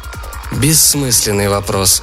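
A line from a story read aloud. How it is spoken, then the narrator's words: Gloomy warrior. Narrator (Russian): ответил воин мрачно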